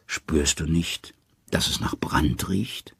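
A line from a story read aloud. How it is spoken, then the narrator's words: Plain. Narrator (German): sagt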